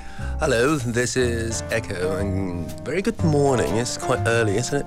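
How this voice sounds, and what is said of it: English spoken with British accent. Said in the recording (Chinese): “你会发现他讲的英文很不一样啊 ... 你刚刚讲那个是英式发音哎”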